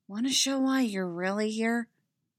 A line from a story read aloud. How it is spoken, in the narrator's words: She whispered